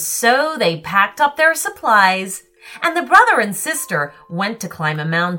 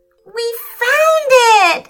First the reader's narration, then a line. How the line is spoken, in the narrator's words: shouted Felix in delight